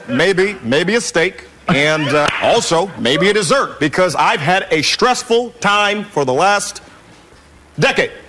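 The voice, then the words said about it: Convincing impression of another person's voice. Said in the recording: “That might be ... doing Barack Obama. ... It's a very good Barack Obama.”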